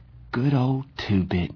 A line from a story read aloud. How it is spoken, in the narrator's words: he said in a quavering voice